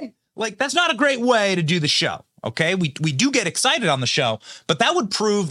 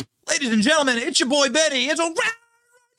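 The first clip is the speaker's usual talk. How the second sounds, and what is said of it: Screaming, over-excited announcer voice. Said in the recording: “my impression... I can't control my voice. I'm screaming all the time”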